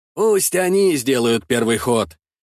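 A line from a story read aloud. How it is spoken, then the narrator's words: Plain. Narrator (Russian): сказал великий князь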